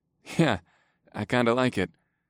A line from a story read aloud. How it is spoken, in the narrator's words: I laughed